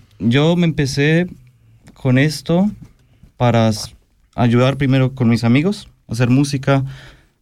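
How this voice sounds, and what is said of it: Colombian Spanish accent. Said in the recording (Spanish): “¿Tú eres colombiano? ... Yo soy colombiano. ... Sí, se te nota el acento.”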